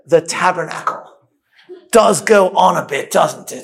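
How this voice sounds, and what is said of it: Put-on British accent. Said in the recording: “my British accent's not bad either”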